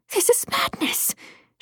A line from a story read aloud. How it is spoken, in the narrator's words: she hissed